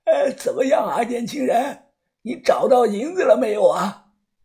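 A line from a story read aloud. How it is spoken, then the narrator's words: Old man smiling. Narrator (Chinese): 这个老头，他笑着看着我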